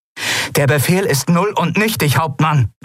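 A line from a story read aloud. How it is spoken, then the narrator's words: Called out. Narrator (German): rief Kalin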